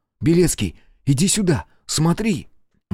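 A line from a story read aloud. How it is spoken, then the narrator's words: Exclamation. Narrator (Russian): Воскликнул он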